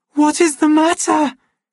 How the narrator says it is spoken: she almost screamed

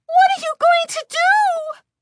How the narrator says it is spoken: Lindy cried in a shrill, frightened voice

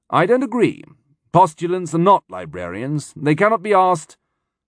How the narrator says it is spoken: Wolf said, in a deceptively casual voice

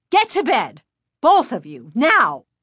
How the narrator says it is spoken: mother snapped

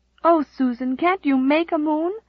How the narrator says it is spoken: cried Nan despairingly

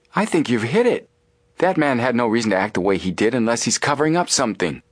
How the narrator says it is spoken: Joe exclaimed

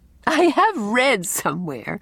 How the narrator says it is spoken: laughed Anne

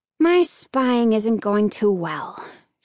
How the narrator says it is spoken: she sighed

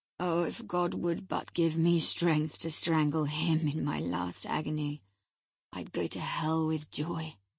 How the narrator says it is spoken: groaned the impatient man, writhing to rise and sinking back in despair

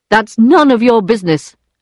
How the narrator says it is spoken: shouted Charles

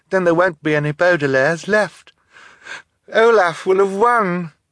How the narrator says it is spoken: Violet said tearfully

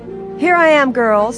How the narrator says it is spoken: exclaimed Nancy Drew

